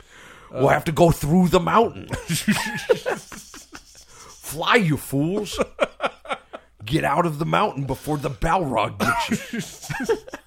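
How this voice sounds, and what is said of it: Imitates movie character voices. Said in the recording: “And the nominee for Best Impersonation 2020 goes to... If he just like played all of the characters.”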